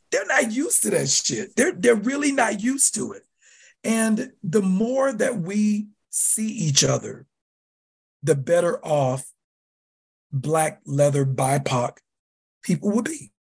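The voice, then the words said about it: Loud voice, Southern accent. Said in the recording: “I'm loud, I'm tall, I'm Black. You know, I have a Southern accent.”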